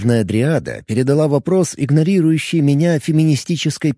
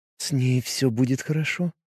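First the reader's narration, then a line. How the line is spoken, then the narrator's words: Quiet, gentle. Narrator (Russian): тихо проговорила дриада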